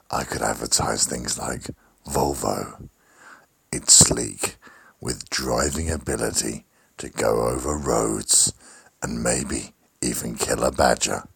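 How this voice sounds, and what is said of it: Sultry, seductive voice. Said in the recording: “my new sexy voice.”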